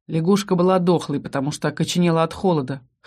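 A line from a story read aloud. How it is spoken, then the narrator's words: Snorting. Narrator (Russian): хмыкнул Ас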